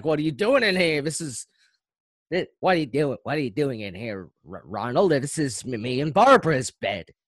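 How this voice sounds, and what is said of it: Imitates another person's voice. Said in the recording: “that was an uncanny impression”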